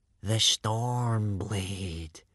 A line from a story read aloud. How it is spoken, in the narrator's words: breathed Baggy Bum the beer belly